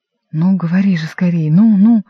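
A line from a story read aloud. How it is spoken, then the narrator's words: Hoarse rasp. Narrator (Russian): прохрипел Римский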